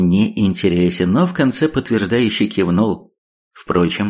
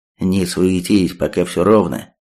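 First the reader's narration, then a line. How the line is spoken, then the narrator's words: Quiet. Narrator (Russian): тихо сказал Третьяк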